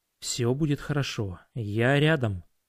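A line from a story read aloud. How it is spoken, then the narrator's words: Whispered. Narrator (Russian): шепнул я ей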